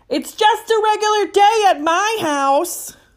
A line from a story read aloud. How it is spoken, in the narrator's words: I finally had enough of being skipped and yelled